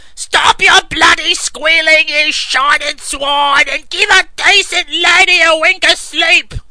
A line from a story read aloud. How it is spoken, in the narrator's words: twice the voice of a crow screamed down